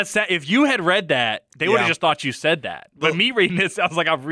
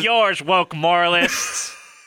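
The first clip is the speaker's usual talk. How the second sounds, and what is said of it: Imitates another person's voice. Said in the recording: “That's my Jordan Peterson impression.”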